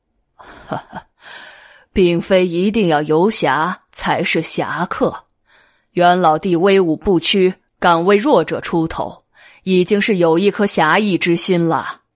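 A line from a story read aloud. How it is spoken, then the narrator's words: Laughing. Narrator (Chinese): 任猛笑道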